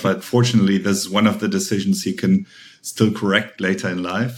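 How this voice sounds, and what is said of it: German accent. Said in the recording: “as you can probably tell by my accent, I'm originally from Germany”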